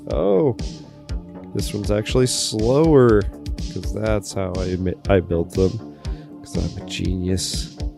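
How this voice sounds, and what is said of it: Sarcastic self-mocking tone. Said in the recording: “That was sarcasm”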